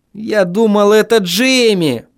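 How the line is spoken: Groaned. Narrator (Russian): Простонал я

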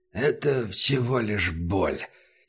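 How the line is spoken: Hoarse. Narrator (Russian): сказал Убер хрипло

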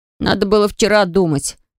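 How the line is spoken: Grumbling. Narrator (Russian): проворчал Энтай

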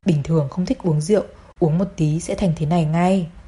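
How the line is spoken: Whispered, woman. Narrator (Vietnamese): Hồng Cô thì thầm nói

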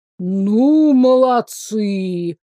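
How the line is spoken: Drawn-out drawl. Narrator (Russian): протянул царь

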